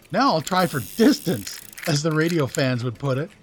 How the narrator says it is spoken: he chuckled, jubilant over his success thus far

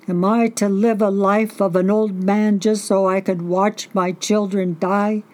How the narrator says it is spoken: He gasped back sobs, and he hollered to the sea

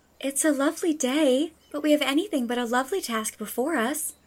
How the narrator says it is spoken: sighed Diana

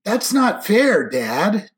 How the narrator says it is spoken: Jake whined

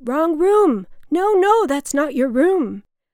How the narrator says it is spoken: My mother's security guard shouted

